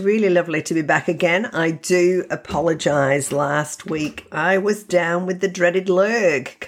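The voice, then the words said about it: Congested, very nasal voice. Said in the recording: “You can probably still hear it in my voice sounding very nasally”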